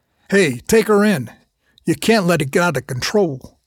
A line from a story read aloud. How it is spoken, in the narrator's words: the commander barked